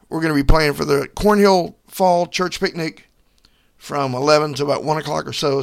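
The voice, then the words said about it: Strained, worn-out hoarse voice. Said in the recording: “My voice is a little bit shot, been a little under the weather here lately ... while I still have some vocal cords left”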